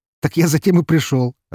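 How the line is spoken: Laughing. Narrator (Russian): рассмеялся я

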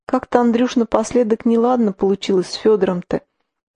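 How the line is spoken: Tender, affectionate tone. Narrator (Russian): Маня ласково прижавшись, сказала

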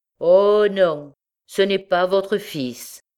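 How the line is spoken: Frantic, ringing voice. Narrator (French): reprit Millette hors d'elle-même et d'une voix éclatante

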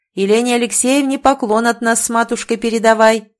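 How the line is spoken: Shouted. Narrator (Russian): крикнул отец

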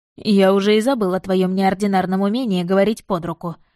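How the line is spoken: Grumbling. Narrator (Russian): проворчал он

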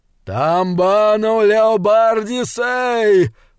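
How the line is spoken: Hoarse, mournful roar. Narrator (Russian): проревел Бенигарис, и, как это ни чудовищно, голос его был хриплым и скорбным

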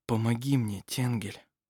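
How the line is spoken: Whisper. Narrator (Russian): прошептал он

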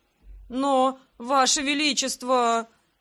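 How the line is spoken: Groaning. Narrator (Russian): простонал он

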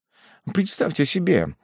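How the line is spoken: Almost moved voice. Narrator (Russian): продолжал камергер чуть не растроганным голосом

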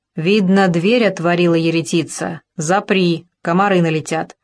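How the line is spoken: Rough mannish shout, old woman. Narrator (Russian): Старая уханиха грубо по-мужски крикнула

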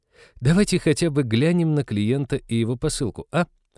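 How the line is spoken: Hopeful pleading. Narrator (Russian): с надеждой взмолилась Молли

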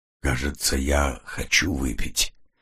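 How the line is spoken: Dull hoarse voice. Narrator (Russian): глухим, хриплым голосом произнесла Кит

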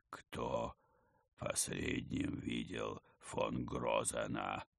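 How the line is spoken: Gloomy creaking voice. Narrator (Russian): мрачно проскрипел он

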